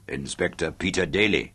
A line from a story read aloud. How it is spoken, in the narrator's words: Suleiman confirmed with a chuckle